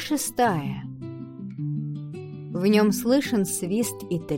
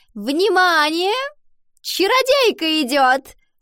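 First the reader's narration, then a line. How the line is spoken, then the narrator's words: Shrill announcement to whole class. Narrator (Russian): Луана визгливо провозгласила на весь класс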